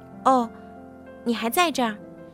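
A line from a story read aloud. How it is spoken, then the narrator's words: Flat, indifferent. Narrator (Chinese): 淡淡对我说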